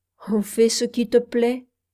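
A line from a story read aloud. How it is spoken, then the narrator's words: Sad. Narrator (French): dit Robert tristement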